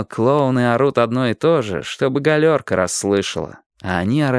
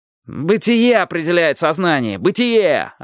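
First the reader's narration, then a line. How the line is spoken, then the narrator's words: Yelling. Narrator (Russian): орал Панфилов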